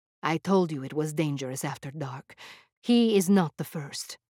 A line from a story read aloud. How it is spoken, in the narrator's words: gravely said